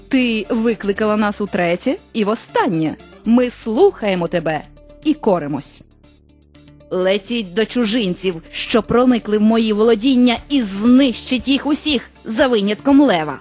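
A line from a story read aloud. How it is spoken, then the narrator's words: Plain. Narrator (Ukrainian): сказала лиха відьма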